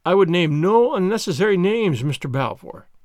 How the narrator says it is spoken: said he

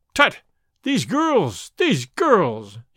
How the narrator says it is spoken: he cried

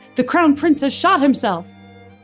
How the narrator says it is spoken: shouted

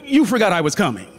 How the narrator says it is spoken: the woman blurted

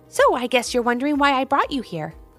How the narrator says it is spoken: chirped the little bird

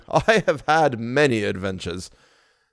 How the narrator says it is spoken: He added, laughing

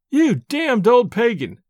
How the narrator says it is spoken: I cried, laughing aloud in his face

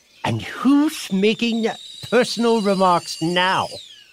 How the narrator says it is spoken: The Hatter asked triumphantly

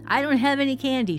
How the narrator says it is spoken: shouts

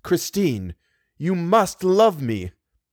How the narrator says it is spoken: a man's voice saying in a curiously masterful tone

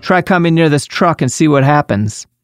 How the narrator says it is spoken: Bruce cracked his window and shouted

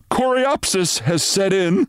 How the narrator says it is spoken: said Renshaw nervously

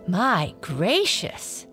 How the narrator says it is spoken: exclaimed Blackie

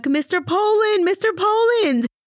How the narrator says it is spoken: Two girls bravely approached the front of the bus and screamed at Chuck

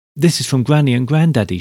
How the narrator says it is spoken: she cried

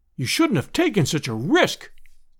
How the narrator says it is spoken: we all cried

